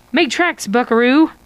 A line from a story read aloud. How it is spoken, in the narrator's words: Josh shouts